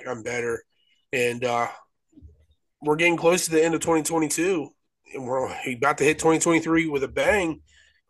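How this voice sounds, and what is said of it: Stuffy, congested voice. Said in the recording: “probably hear it in my voice. I'm still a little stuffy”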